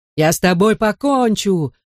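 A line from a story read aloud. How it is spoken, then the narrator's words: Yelling. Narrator (Russian): орал Донни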